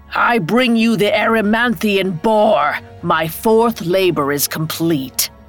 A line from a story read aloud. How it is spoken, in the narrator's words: Hercules bellowed